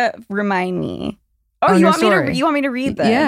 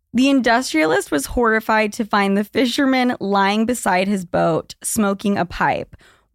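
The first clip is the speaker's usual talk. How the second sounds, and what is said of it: Poetic dramatic reading voice. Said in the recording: “In my poetry voice.”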